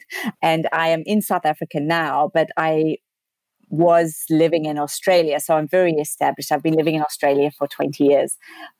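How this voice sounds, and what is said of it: South African accent. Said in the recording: “I am South African, as you can hear from my accent”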